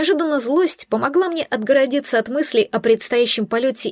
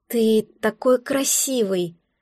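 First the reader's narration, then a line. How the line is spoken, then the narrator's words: Breathless exhale. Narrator (Russian): выдохнула я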